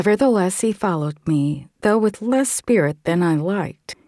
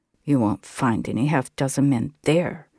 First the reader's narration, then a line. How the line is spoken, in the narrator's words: was his muttered reply